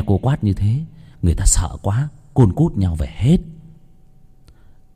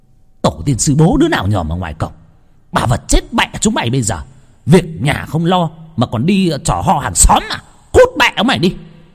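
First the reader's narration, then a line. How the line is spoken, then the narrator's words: Shrill shriek. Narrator (Vietnamese): cô ba rít lên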